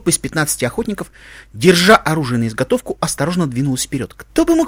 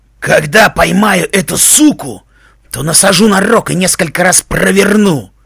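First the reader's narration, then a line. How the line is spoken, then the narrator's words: Hoarse, pained rasp. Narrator (Russian): хрипел высокий аликорн, бинтующий простреленный на вылет плечо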